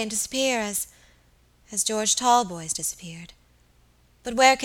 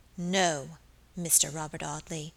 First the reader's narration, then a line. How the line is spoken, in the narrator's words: she said aloud in a low, clear voice